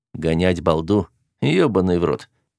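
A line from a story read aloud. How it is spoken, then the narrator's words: Groan. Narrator (Russian): простонал я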